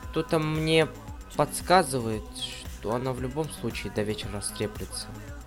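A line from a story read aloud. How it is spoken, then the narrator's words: Soft whisper. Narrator (Russian): тихонько прошептала она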